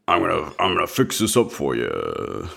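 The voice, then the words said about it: Imitates another person's voice. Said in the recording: “That's not what he sounded like ... that was a good impression of somebody, but I just don't know who, and certainly not the guy you're trying to be.”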